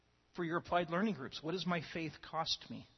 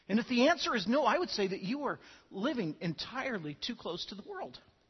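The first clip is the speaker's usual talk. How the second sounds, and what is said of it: Voice cracking with emotion. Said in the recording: “I don't mean for my voice to crack ... my voice cracking”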